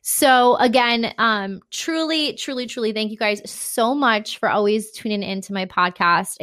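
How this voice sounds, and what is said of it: Breathless, out-of-breath speech. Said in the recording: “I'm out of breath. ... I'm out of breath.”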